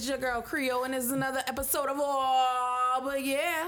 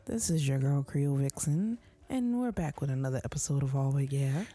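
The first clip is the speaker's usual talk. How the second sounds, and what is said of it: Smooth NPR radio announcer voice. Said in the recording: “You want the NPR voice?”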